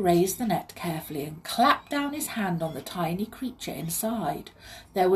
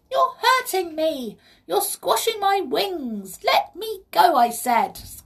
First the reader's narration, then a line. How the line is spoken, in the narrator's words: cried the pixie, squealing out again